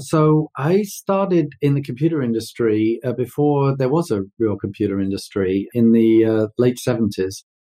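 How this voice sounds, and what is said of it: London English accent. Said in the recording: “you might be able to tell from my accent. I'm way east of Houston, being born and raised in London.”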